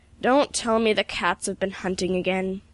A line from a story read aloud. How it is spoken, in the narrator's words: he groaned